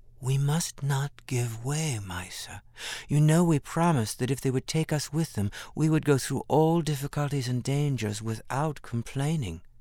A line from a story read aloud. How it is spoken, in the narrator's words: Ruth whispered into her ear